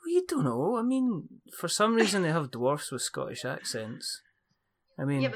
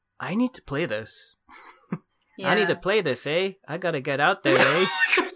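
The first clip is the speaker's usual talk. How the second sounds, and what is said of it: Put-on Canadian accent. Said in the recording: “It's the best Canadian accent I can do.”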